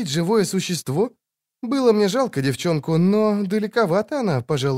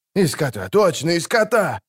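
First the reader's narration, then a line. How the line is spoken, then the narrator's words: Crowd shouting. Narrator (Russian): закричали окружавшие жреца кметы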